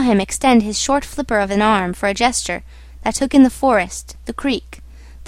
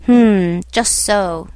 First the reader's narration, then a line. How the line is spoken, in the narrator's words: grunted the uncle